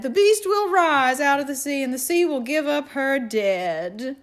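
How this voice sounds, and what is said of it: Attempted Cajun preacher accent. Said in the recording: “that's not the right accent. I can't do a Cajun accent very well, but it was akin to that”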